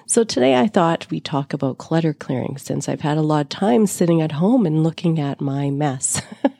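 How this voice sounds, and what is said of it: Raspy voice. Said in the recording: “You'll have to excuse my raspy voice. I'm healing from COVID.”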